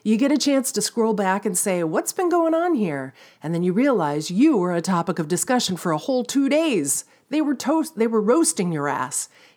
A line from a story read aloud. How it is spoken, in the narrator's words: chuckles, remembering times when he was the butt of the joke